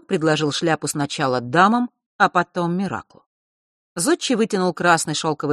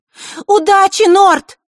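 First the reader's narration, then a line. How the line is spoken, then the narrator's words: Sudden shout. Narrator (Russian): неожиданно выкрикнула Маришка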